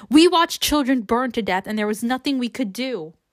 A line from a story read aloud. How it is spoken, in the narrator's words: her anger only seems to infuriate him, and he yells